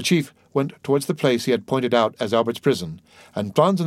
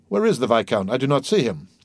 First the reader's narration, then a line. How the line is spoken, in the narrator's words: said Franz, looking round him uneasily